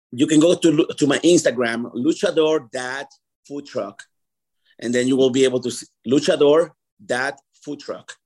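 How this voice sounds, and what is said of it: Very strong accent. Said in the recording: “you have a very strong accent”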